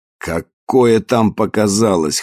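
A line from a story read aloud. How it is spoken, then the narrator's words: Snort. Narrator (Russian): хмыкнул Мартинес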